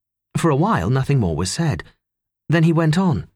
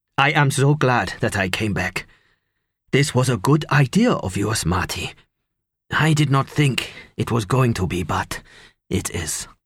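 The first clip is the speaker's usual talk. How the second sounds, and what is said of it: Foreign-accented English. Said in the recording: “He spoke English with a foreign accent of some kind ... it wasn't the kind of accent I was used to at all”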